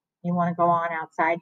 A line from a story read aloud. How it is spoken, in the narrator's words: she whispered